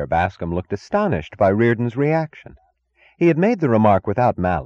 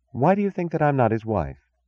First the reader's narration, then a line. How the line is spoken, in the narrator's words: she asked calmly